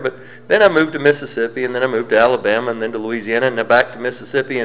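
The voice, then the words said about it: Southern American accent. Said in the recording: “I don't talk like somebody from Colorado anymore ... you sound Southern. Well, I probably do.”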